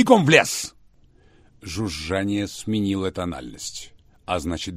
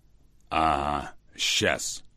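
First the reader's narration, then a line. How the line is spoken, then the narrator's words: Snorting. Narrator (Russian): фыркнул Рамов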